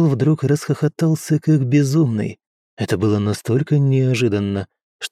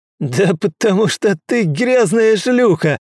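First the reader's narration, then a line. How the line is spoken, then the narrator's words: Furious yell. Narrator (Russian): заорал Кэрл, бешено дергаясь на стуле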